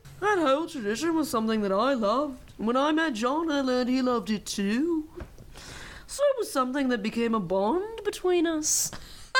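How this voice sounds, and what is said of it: Poor imitation of a Liverpool accent. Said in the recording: “worst Paul McCartney impersonation of all time ... It was real bad ... I don't think it became Australian at any point”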